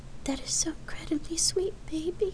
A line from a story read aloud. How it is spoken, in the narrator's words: Lark tearfully replied